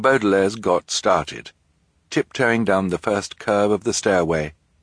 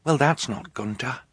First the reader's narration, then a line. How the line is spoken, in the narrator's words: Violet whispered